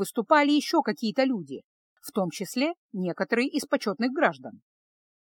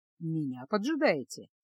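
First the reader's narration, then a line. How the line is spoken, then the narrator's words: Soft low question. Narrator (Russian): спросил мягким, низким голосом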